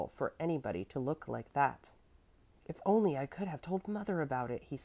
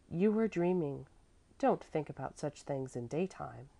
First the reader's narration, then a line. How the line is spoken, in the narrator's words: the mother said kindly